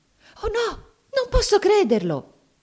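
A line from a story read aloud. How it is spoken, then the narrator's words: Frightened exclamation. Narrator (Italian): esclamò Mamie impaurita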